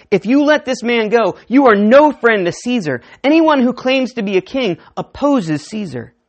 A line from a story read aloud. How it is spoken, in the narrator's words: the Jewish leaders kept shouting